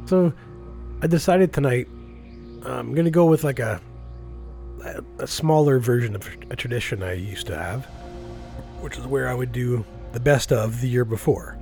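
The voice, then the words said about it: Hoarse, ravaged sick voice. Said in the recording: “I'm under the weather. I got a nasty case of COVID ... My voice is ravaged”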